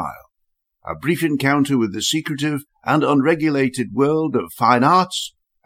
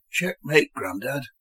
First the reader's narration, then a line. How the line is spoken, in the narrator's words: whispered Finn, with the merest hint of amused self-satisfaction